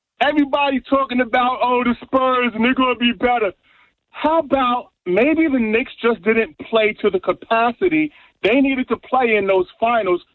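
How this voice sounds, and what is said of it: New York accent. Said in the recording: “if you can tell from my accent, I am from New York”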